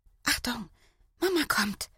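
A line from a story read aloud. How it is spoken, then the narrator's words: Said quietly. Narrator (German): sagt Sandra leise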